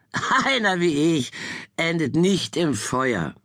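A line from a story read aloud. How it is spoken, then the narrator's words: Laughing reply. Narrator (German): er erwiderte lachend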